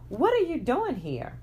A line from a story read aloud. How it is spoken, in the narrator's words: asked in a shocked tone